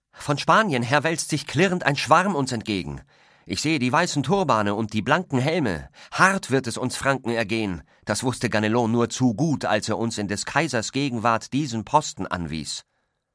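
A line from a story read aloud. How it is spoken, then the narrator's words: Calling out. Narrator (German): Er rief seinem Kumpan Roland zu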